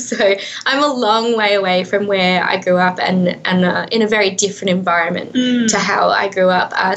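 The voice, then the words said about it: Australian accent. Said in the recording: “you may detect an accent. I am from Australia.”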